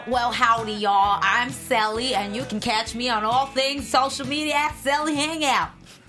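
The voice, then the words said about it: Put-on Texan accent. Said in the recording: “I think she's just trying to mimic my accent. ... You know, he's from Texas.”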